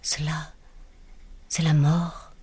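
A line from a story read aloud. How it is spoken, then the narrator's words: Murmur. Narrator (French): murmura-t-elle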